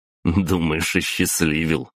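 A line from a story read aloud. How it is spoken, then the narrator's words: Short chuckle. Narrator (Russian): хохотнул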